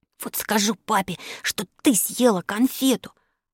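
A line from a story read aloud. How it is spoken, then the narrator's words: Child's hiss. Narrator (Russian): прошипел Алёшка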